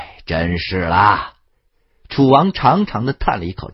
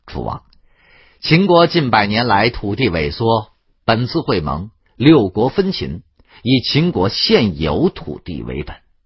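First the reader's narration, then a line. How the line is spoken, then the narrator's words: Smiling. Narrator (Chinese): 庞涓也向楚宣王 笑道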